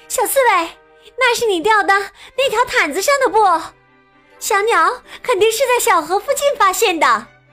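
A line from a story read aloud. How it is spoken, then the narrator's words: Fox shouting. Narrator (Chinese): 狐狸大喊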